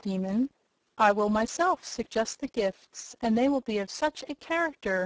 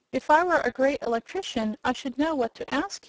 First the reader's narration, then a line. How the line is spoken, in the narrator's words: he said